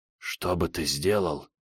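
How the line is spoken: Fearful whisper. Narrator (Russian): прошептал полицейский, словно боялся, что их могут подслушать

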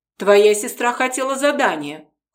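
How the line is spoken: Smirking grunt. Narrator (Russian): хмыкнул он

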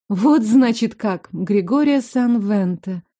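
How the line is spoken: Lifeless voice. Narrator (Russian): повторила я безжизненным голосом

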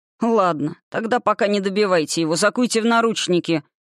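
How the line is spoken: Smirking grunt. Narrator (Russian): хмыкнул главарь

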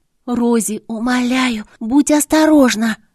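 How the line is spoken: Anxious whisper. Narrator (Russian): взволнованно прошептала Тара

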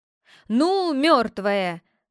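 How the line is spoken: Deep bass shout. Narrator (Russian): крикнул малюточка басом

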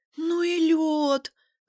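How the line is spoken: Breathless. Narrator (Russian): выдохнула она

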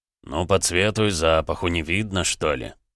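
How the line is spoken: Irritated, gruff man. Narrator (Russian): раздраженным тоном ответил здоровяк

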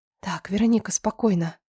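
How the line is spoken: Whisper. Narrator (Russian): прошептала я

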